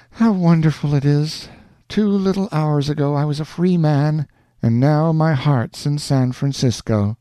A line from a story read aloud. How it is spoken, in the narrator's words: heaved a sigh and said